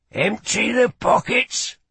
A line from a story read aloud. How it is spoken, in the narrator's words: growled in a husky voice